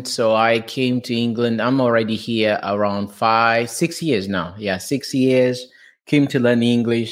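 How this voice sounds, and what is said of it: Portuguese accent. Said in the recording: “I'm from Portugal, as you can hear from my accent.”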